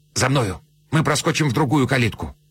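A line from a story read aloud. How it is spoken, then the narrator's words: Whispered. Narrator (Russian): Садовник шепнул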